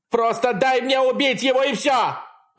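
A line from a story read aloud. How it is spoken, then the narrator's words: Screaming. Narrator (Russian): вопит Кристал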